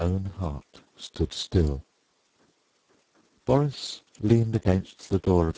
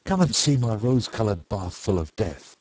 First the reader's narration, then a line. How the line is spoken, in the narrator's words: he cried